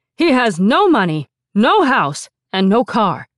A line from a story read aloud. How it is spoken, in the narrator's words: her father proclaimed loudly